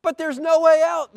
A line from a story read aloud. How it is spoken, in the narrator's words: they cried